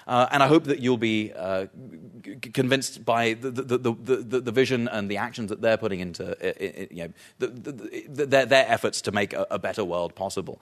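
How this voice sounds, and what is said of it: British accent. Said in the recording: “I'm telling you in a British accent”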